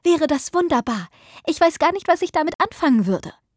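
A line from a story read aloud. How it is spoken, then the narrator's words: Shouted. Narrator (German): rief Margaret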